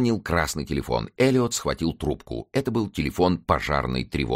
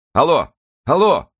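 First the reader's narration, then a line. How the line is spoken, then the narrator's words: Shouting. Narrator (Russian): крикнул он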